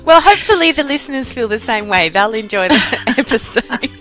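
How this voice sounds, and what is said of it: Distinctive pleasant accent. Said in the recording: “I love your accent. I could listen to you all day.”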